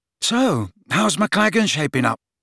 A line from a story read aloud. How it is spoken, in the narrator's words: he asked Harry nervously